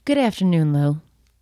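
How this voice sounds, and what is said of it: Sultry radio-style voice. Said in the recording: “is that your sultry radio voice?”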